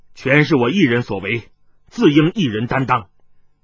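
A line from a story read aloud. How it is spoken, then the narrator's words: Deep, grave voice. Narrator (Chinese): 盛存孝沉声说道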